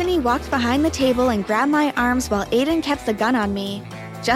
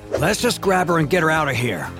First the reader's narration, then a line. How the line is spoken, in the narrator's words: Alexandro said impatiently